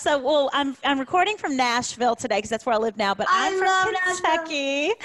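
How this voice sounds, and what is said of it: Southern Kentucky country accent. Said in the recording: “I hear that accent, girl. ... It's a little bit country, a little bit redneck, a little bit southern, a little bit just everything all mixed together.”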